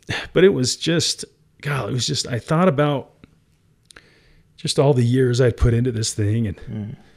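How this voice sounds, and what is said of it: Teary, emotional voice. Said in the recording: “I'm getting teary now just thinking about it.”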